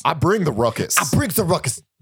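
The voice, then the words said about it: Imitates another person's voice. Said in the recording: “I wish I could do a better JB Smoove impression.”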